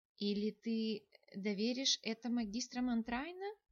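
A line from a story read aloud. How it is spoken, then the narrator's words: Gentle question. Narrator (Russian): мягко поинтересовалась Эванна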